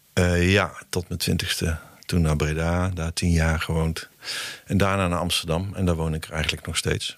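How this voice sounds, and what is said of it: Brabant Dutch accent. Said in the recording (Dutch): “Volgens mij ben jij in Brabant geboren, als ik het accent zo...”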